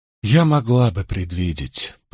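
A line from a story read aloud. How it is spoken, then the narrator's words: Calm, slightly trembling voice. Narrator (Russian): произнесла Рэйчел спокойным, но слегка дрогнувшим голосом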